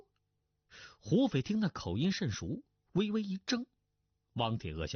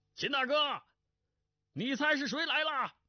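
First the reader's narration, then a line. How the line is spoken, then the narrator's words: Loud. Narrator (Chinese): 大声道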